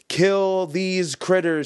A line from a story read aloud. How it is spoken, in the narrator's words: he screamed